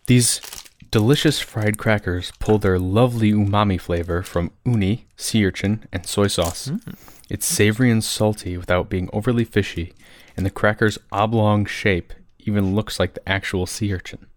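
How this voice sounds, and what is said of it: Reading in a narrator voice. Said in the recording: “What's this narrator voice? ... We all like have our narrator voice.”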